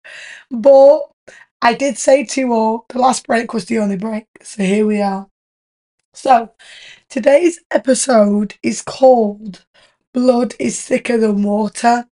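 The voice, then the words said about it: Strained, sore-throated voice. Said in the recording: “My voice is killing me ... this noise coming out of my throat ... my throat's hurting”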